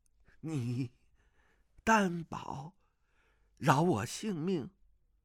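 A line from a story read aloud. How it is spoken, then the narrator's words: Trembling voice. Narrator (Chinese): 皇太叔颤声道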